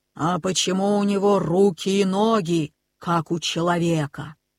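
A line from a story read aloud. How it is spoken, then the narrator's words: Plain, bear speaking. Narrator (Russian): сказал медведь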